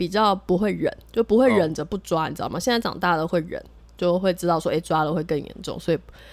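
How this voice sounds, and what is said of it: Usual voice. Nothing is said of it.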